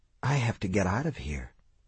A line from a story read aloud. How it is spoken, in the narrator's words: he whispered